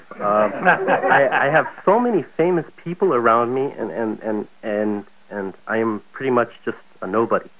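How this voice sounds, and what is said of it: Nervous, scared-sounding voice. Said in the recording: “As you can hear from my voice, I am scared beyond belief.”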